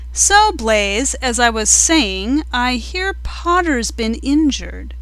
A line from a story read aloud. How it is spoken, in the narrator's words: she said loudly